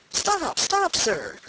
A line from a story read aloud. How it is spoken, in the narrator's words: cried Candide